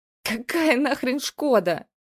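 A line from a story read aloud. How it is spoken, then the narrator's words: Old man laughing. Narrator (Russian): дед рассмеялся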